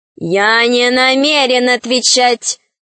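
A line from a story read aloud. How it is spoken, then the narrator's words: Regal kingly voice. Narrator (Russian): сказал король королевским голосом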